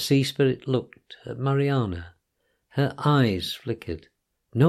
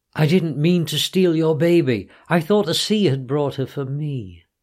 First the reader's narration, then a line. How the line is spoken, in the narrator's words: Mariana cried